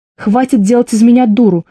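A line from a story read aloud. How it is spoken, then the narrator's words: Shouting. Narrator (Russian): закричала я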